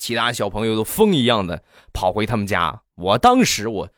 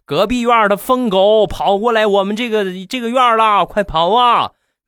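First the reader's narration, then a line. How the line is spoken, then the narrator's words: Loud shout. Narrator (Chinese): 有一个人就大声的喊道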